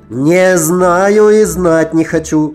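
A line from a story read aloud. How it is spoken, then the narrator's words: Muffled shouting behind door. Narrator (Russian): кричал кто-то за дверью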